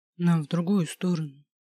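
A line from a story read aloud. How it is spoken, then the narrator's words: Sighed. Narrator (Russian): вздохнул Самохин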